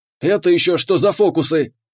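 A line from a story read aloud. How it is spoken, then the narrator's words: Barked command. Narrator (Russian): рявкнул капитан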